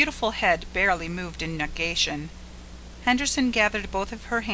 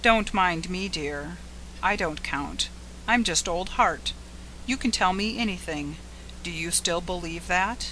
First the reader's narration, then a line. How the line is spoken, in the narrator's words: he said softly